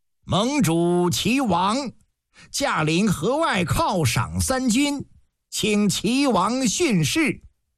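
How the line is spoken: Loud. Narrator (Chinese): 田稹高声一句

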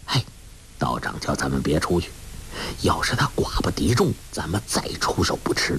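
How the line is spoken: Low, urgent. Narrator (Chinese): 郭啸天低声说

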